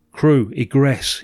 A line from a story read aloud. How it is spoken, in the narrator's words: he said